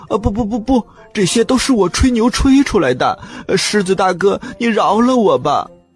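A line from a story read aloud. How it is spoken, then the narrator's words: Crying, pleading. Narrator (Chinese): 小花狗一边哭一边说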